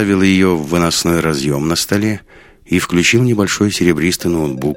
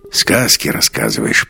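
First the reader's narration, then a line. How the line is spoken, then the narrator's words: Muttered. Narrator (Russian): пробормотал Свиридов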